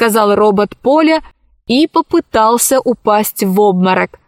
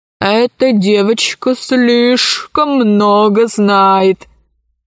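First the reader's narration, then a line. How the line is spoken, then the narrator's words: Gloomy. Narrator (Russian): мрачно сказала тетя Дуся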